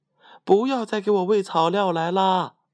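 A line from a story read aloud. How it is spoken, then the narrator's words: Shouting again. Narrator (Chinese): 小汤姆又叫道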